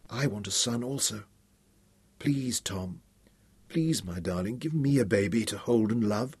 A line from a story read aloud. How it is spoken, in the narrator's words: whispered into his ear